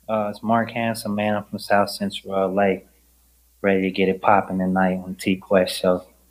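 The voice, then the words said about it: West Coast American accent. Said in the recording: “I can hear the accent already. ... Yeah, the West Coast accent. ... because of your dialect, it would have been obvious that you were from the West Coast.”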